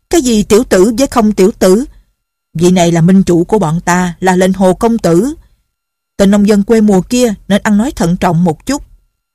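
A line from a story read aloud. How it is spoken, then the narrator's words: Several voices shouting. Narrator (Vietnamese): trong quần hào đã có mấy người la lên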